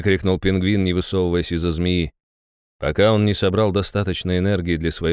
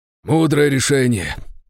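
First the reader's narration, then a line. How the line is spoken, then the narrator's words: Breathless exhale. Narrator (Russian): выдохнул Григорий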